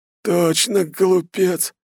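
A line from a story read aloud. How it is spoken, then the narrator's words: Hoarse, spitting blood. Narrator (Russian): сплевывает он кровь, хрипя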